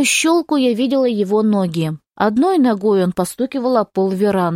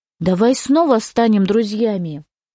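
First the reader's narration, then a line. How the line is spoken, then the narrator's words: Ingratiating, insinuating. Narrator (Russian): заговорил вкрадчиво, заискивающе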